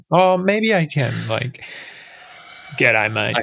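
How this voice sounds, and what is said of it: Exaggerated Australian accent. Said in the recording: “Go do your Australian accent then. ... Nah, that's too much.”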